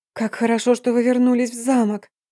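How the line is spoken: Weak breathless exhale. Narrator (Russian): Едва не оседая на пол, выдохнула я

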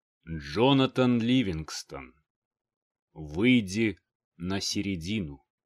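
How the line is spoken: Solemn elder's voice. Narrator (Russian): Слова старейшего звучали торжественно

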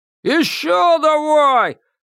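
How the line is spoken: Crowd yelling. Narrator (Russian): завопили в зале

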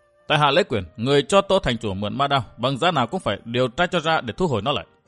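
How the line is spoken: Calm, unhurried. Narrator (Vietnamese): Ngọc Cố Hàn không hề tức giận, ung dung nói

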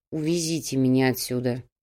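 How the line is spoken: Grumbling mutter. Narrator (Russian): буркнул Кауфман

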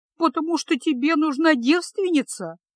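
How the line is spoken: Sobbing. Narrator (Russian): всхлипнула она

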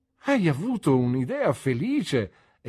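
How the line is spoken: Exclaimed. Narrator (Italian): esclamai

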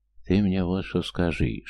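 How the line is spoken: Whisper in the ear. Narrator (Russian): шепнул на ухо Кресту дядя

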